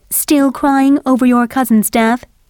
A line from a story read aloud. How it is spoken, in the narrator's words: Lady Capulet asked